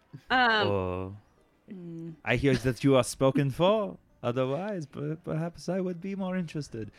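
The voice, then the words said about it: Put-on, inconsistent foreign accent. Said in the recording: “I think she might be French. ... her accent's all over the place because the GM's having a tough time nailing it down ... her accent is a perfect Mendevian accent.”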